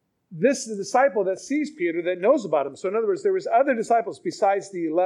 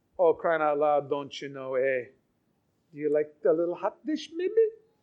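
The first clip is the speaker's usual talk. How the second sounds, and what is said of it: Put-on regional accent. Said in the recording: “These guys are from Galilee. Their accents give them away ... Your accent gives you away.”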